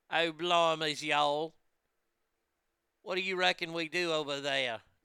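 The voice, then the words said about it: English accent with southern drawl. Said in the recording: “English accent with a southern drawl”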